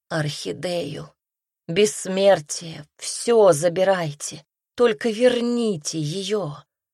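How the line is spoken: Hoarse rasping. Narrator (Russian): Хрипела

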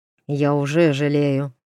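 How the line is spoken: Prince muttering curtly. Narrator (Russian): буркнул принц

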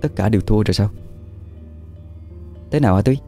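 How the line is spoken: Muttering to herself. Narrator (Vietnamese): Thúy lẩm bẩm trong miệng

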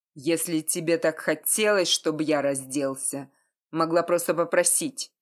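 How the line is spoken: Growled. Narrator (Russian): прорычал Бета

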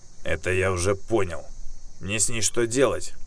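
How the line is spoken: Panting man snorting. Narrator (Russian): Тяжело дыша хмыкнул мужчина

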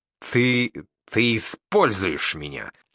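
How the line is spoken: Through gritted teeth. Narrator (Russian): Цедит сквозь зубы Павел

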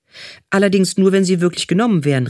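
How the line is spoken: Fox calling out. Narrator (German): rief der Fuchs

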